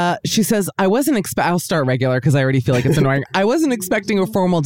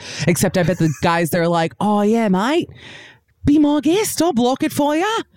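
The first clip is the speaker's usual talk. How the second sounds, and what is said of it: Put-on Australian accent. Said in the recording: “Should I do accent or no? I'll try it”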